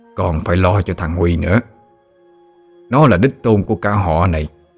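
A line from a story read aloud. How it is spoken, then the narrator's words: Father, cold emphasis. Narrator (Vietnamese): Bố lạnh lùng rồi nhấn mạnh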